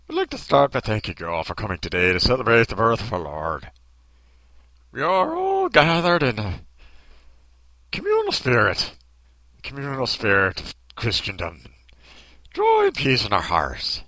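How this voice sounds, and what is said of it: Over-the-top cartoon Irish accent. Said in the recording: “That's a terrible Irish accent ... It's just over-the-top Irish cartoon accent.”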